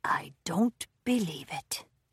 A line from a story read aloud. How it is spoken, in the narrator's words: Brumby muttered